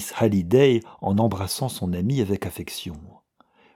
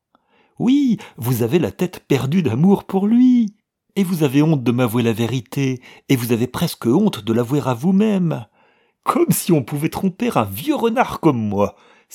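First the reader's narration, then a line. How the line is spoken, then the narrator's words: Exclaiming, bursting with laughter. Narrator (French): s'écria Charlotte, éclatant de rire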